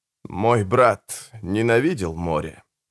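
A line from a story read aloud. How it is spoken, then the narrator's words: Muttered. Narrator (Russian): пробормотал Родриго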